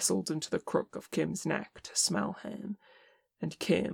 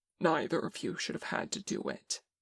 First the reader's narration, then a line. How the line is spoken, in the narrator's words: Tenkun said, his voice thick with tears